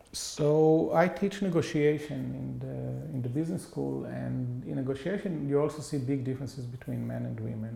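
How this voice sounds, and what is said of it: Israeli-accented English. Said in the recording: “I'm 50 year old with Israeli accent”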